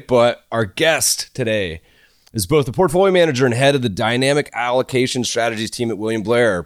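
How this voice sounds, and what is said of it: Stuffy, congested monotone voice. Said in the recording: “Apologize if I'm a little stuffy. My normal monotone probably sounds even worse today”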